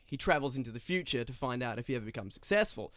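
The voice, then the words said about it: Fake Australian accent. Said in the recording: “you have a fake accent, don't you? ... That's a fake accent. ... I've just been practicing my Aussie accent.”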